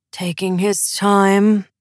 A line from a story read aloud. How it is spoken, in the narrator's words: grumbled Prince Rasmus